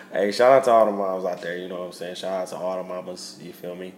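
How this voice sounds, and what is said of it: Congested, stuffy-nosed voice. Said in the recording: “I'm a little stuffy ... your boy was a little sick, a little under the weather ... you sound a little stuffy ... My sinus is messing with me”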